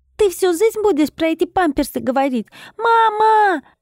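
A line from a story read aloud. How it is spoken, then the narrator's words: Offended yell, whole-house loud. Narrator (Russian): Обиженно заорал он на весь дом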